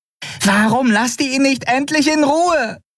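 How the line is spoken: Shouting. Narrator (German): schrie Nelen in ihrem Käfig die Weißmäntel an

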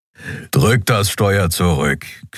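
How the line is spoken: Growling from behind. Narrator (German): knurrte der Skrier hinter ihr

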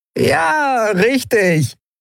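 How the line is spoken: Dirty laughing voice. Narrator (German): wieder das wunderbar schmutzige Lachen

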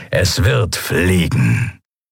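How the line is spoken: Satisfied grumble. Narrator (German): brummte der Skria hörbar zufrieden

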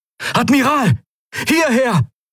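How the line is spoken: Unfamiliar voice calling. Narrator (German): rief eine fremde Stimme

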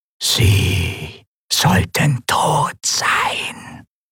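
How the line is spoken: Disembodied whisper. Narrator (German): flüsterte die körperlose Stimme

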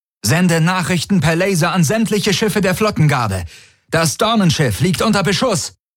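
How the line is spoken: Called out. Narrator (German): rief Tari

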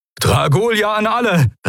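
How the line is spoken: Called out. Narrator (German): rief Telios

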